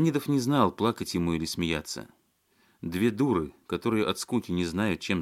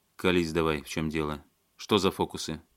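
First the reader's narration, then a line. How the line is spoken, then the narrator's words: Menacing. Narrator (Russian): грозно сказал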